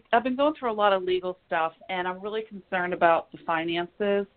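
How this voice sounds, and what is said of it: Congested, altered-sounding voice. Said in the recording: “You sound different. Doesn't she sound different? Do you have a cold? ... Horrible allergies. Horrible. ... allergies are really getting me this season. ... You sound a little different.”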